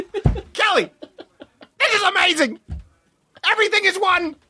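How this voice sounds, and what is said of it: Imitates another person's voice. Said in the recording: “Regis Philbin on psilocybin. ... It's not even a good impression, but it's fun to do.”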